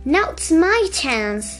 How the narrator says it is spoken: cried Harry

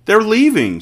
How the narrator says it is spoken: she cried

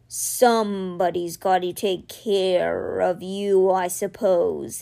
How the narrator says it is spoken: he said gruffly

